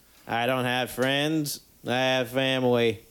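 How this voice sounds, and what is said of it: Imitates another person's voice. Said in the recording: “John Wayne ... It's John Wayne.”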